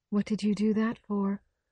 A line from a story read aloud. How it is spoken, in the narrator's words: she was saying dreamily